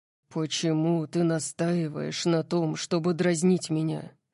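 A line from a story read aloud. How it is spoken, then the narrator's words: Low-voiced question. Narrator (Russian): спросил он низким голосом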